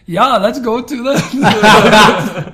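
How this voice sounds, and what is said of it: Put-on German accent. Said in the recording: “put on a German accent ... That is German. I thought you were German ... That's quite good, isn't it?”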